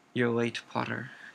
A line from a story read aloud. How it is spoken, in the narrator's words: said Snape coldly